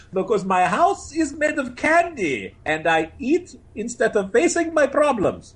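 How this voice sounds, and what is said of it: Impression of Gru cartoon voice. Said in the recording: “Gru, who I've gotten really good at doing an impression of”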